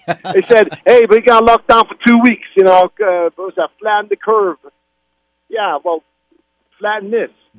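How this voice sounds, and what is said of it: Put-on New York accent. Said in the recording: “Now you sound like a real New Yorker, except you have to go. You have to do a little bit more ... his best New York impression”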